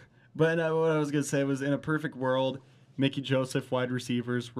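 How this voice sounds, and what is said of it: Usual voice. Nothing is said of it.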